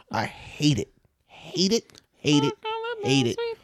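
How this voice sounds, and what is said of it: High falsetto voice. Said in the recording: “That's a good falsetto”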